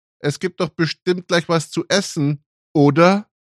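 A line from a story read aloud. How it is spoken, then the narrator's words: Calling out. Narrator (German): rief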